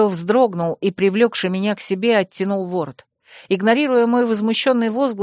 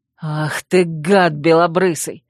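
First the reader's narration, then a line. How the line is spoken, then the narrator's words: Angry growl. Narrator (Russian): зарычал Койл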